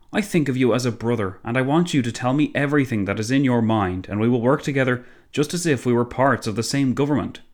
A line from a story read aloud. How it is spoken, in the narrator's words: Clemenceau exclaimed